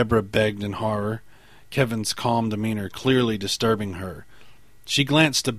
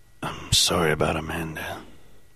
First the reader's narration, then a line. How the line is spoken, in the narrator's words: Perry whispered respectfully